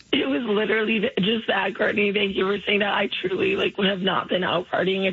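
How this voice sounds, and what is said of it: Hoarse, strained voice. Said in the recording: “I lost my voice ... your voice sounds that way”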